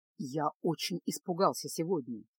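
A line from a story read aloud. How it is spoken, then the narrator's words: Quiet. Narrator (Russian): тихо произнес Кайл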